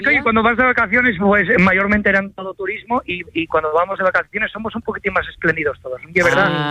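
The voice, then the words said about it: Asturian Spanish accent. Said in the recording (Spanish): “el acento asturiano, y es normal que me salga”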